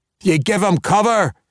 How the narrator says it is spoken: he shouted to the archers

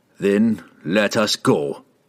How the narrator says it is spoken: he growled

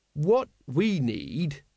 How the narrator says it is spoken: he said slowly

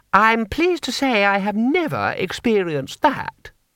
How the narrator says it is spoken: said Lady Two Streams haughtily

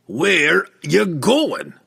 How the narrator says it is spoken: Brunner asked again, angrily

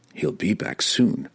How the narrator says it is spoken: the drow muttered to himself

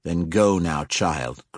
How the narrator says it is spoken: growled Matron Jindia

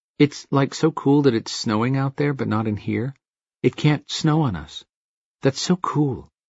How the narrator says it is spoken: She mumbled

